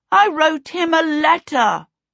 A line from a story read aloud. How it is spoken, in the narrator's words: shouted